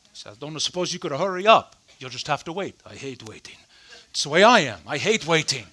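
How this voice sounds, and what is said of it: Put-on Spanish movie-character accent. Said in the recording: “That was my Indigo Montoya accent.”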